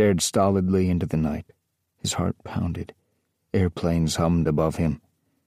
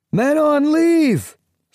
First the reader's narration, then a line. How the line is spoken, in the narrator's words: shouted finally